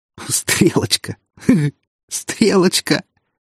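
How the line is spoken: Breathless with laughter. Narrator (Russian): От хохота перехватывало дыхание

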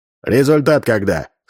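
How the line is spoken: Stern question. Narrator (Russian): строго спросил Армен

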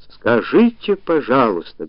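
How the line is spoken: Loud surprise. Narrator (Russian): громко удивилась

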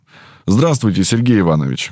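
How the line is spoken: Brisk elderly voice. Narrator (Russian): Голос профессора, несмотря на его возраст, звучал довольно бодро

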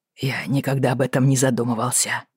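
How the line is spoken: Mumbled. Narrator (Russian): промямлил он

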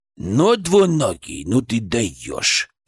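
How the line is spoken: Creaky voice inside head. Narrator (Russian): проскрипел он у меня в голове

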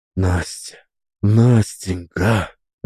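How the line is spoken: Passionate whisper. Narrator (Russian): жарко зашептал Трофим

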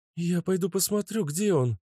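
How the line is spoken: Frightened woman. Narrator (Russian): испуганно проговорила Вика

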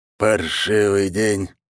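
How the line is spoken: Heavy sigh. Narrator (Russian): вздохнул он тяжело

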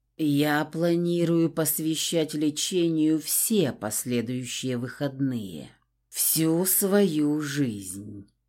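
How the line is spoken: Muffled confession. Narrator (Russian): глухо признался

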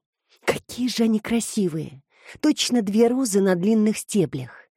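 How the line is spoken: Whisper. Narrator (Russian): прошептала Петрина Люси

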